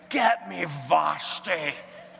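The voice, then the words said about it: Poor impression of a drunk man. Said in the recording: “my drunk Sean Connery impersonation ... It's not very good, I realize, but I worked on it hard ... A little bit, you can kind of sort of tell”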